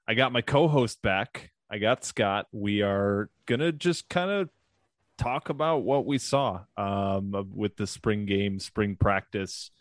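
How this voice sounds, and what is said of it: Nasal, slightly groggy voice. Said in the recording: “we're a little nasally here today, but also I literally woke up from a three hour nap. So my voice is still warming up a little bit.”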